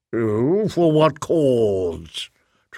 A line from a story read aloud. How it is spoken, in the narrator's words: Tregathin rumbled, splashing feebly